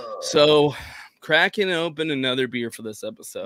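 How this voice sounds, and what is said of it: Hoarse, strained voice. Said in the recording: “If you can't tell, I'm losing my voice or it's coming back.”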